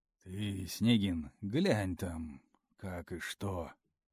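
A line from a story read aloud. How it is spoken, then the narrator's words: Heavy sigh. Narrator (Russian): Тяжело вздохнул Леха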